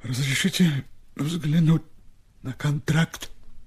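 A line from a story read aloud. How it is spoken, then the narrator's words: Quiet request. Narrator (Russian): тихо попросил Степа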